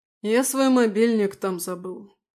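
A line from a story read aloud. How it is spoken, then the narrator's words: Sad. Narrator (Russian): печально сказал тот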